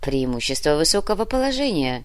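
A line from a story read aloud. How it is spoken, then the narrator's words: Amused snort. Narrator (Russian): хмыкнул Александров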